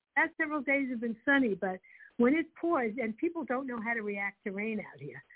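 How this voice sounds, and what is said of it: Brooklyn accent. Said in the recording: “I love you still have your accent. I love you still have your Brooklyn accent.”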